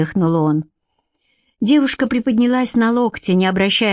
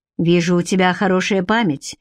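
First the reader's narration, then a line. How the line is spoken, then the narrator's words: Displeased grumble. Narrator (Russian): недовольно проворчал он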